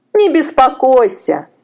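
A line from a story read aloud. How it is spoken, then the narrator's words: Laughing women. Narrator (Russian): засмеялись женщины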